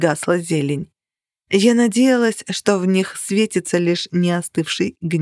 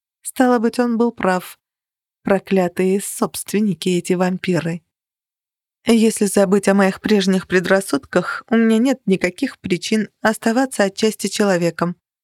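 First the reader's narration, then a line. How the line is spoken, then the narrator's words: Even, level voice. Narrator (Russian): ровным голосом продолжала я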